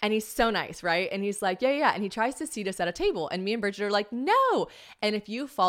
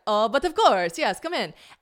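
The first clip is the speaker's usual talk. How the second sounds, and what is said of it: Poorly done French accent. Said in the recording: “I'm gonna fuck up the French accent so bad because I only do the British accent well now, so I can't do the French accent.”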